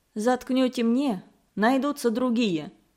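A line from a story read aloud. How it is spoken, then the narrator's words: Calm reply. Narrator (Russian): спокойно отозвался доктор Аткинс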